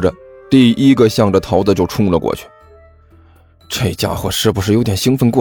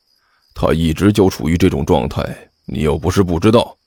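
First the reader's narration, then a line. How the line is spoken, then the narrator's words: Hushed question. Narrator (Chinese): 何阿南压低声音问道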